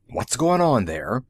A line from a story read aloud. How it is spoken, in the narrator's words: Zorn rasped